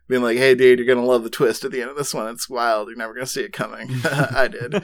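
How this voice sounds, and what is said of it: Slight Southern California accent. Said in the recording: “you affected a little bit of like a SoCal accent for that”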